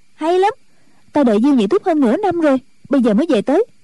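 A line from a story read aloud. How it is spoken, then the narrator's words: Joyful exclamation. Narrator (Vietnamese): Chu Cửu Chân cảm mừng, reo lên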